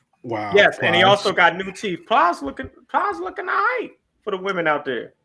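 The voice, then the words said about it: Southern American accent. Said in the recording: “sound Southern. This is why you sound Southern.”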